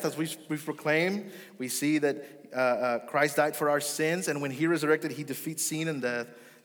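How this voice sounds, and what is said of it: Speaker's own accent showing. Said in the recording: “Sin and death, there's my accent.”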